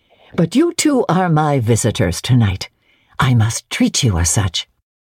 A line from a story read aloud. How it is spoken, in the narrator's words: she said cheerfully